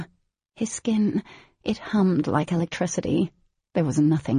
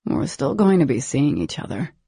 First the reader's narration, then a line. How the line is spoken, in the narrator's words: murmured